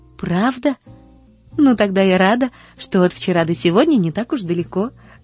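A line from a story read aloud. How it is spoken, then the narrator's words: Laughing. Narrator (Russian): засмеялась Поллианна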